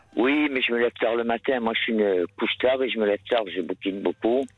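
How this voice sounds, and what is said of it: Slight regional French accent. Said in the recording (French): “Votre petit accent, tout ça, c'était vraiment très agréable”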